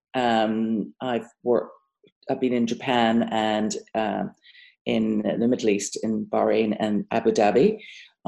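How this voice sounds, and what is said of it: British accent. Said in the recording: “as you can hear from my accent, I'm not from America. I'm British”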